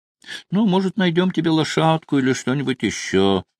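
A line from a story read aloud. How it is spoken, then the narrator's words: Sighing. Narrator (Russian): вздохнула Молли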